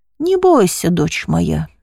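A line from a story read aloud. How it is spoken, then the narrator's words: Calm bishop. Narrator (Russian): спокойно произнес епископ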